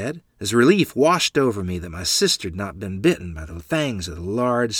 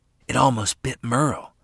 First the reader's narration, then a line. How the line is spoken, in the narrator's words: Lottie whispered